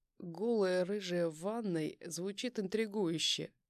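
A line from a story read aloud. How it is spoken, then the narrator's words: Smirking. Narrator (Russian): Усмехнулся Титов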